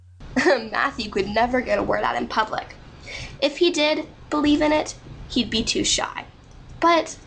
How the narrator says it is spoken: she added with a sigh

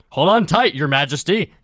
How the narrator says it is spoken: he shouts

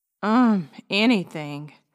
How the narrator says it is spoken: he sighed

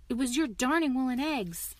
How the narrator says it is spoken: grumbled Aunt Porcus

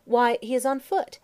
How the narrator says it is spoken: exclaimed Saladin

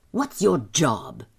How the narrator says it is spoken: he asked, sharply

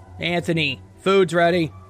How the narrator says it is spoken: yelled

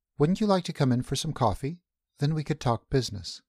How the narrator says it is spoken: she interrupted hastily

